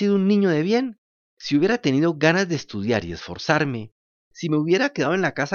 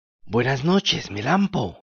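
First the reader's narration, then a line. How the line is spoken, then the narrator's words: Low voice. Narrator (Spanish): Una de estas garduñas dijo en voz baja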